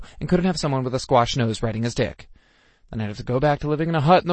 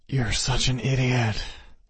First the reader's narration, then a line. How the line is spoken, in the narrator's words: he growled